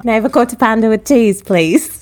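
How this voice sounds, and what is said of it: Speaking in a put-on accent. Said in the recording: “There goes her accent. ... She can't help herself.”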